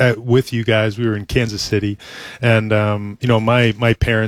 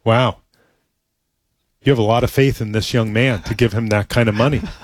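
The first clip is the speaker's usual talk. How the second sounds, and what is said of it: Imitates another person's voice. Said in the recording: “is that your mom impression? ... That is my mom's impression. ... I can hear it.”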